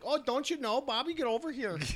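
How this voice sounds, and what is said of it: Exaggerated Minnesota accent. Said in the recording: “had the hardest Minnesota accent”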